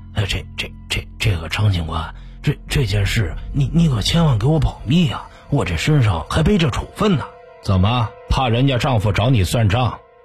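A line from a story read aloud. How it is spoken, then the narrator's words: Whispered pleading. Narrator (Chinese): 悄声求着张明义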